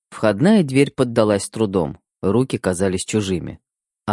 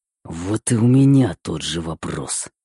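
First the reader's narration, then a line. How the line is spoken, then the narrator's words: Hissing. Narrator (Russian): прошипел я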